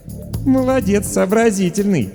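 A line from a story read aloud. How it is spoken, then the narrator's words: Chuckling. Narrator (Russian): хохотнула Даша Воронина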